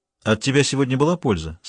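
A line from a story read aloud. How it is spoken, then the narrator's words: Plain. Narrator (Russian): спросил Клавдий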